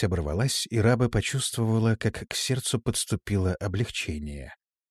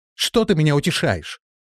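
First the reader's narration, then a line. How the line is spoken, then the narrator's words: Exclaimed. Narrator (Russian): воскликнула Тора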